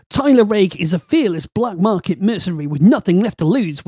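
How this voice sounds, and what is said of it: Bristol English accent. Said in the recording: “You can't do it with that accent, I don't think. ... my Bristol accent”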